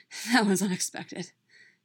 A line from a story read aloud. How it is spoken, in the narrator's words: Bucky said in between panting breaths